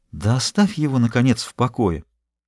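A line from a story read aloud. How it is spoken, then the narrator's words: Whisper. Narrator (Russian): Она шептала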